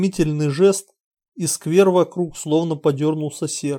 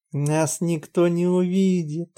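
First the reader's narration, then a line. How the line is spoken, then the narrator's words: Whispered in ear. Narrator (Russian): прошептала ему на ухо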